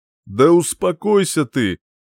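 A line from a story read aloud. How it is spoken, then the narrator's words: Man chuckling. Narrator (Russian): хохотнул мужчина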